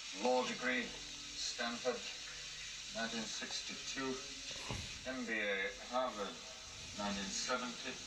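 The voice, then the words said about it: Put-on German accent, not British. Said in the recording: “He's not doing his regular British accent, I guess. ... No, he's doing a German one in this. ... Is that a German accent?”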